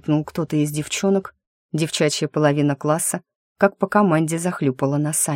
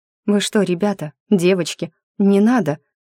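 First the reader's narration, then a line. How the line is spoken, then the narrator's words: Confused mumble. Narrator (Russian): Растерянно оглядываясь, пробормотала Дарья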